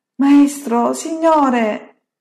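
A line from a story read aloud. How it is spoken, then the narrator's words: Exclaimed. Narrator (Italian): esclamano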